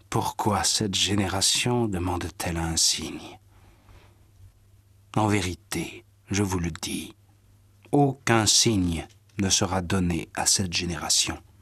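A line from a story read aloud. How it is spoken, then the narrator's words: Sighing. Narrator (French): Jésus soupira et dit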